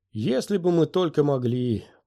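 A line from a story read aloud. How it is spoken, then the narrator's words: Moaning. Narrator (Russian): простонала Астри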